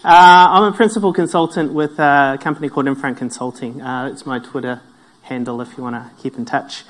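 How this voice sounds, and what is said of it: New Zealand accent. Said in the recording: “My accent comes from New Zealand”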